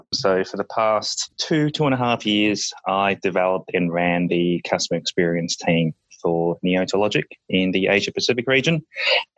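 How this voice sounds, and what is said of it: Australian accent. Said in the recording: “the accent ... I am from Australia”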